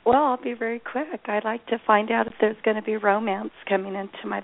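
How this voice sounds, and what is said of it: Congested voice with a cold. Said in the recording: “I have a cold, so please excuse my voice.”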